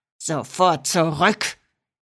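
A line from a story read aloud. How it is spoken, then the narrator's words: Growling. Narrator (German): knurrte Rocco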